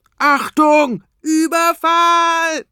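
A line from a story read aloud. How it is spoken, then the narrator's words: Roared. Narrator (German): brüllt Tobias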